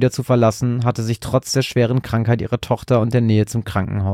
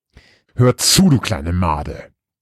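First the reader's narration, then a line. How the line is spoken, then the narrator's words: Deep growl. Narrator (German): knurrte sie ihren Bruder mit tiefer Stimme an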